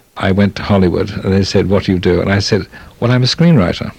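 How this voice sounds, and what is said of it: Speaks with a distinctive accent. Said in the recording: “if you say it with my accent, it sounds as though it's right”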